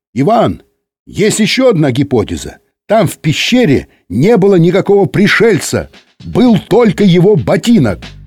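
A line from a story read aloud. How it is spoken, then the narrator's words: Shout from the corridor. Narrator (Russian): в коридоре крикнули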